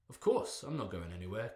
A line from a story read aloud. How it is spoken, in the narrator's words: Kidwin replied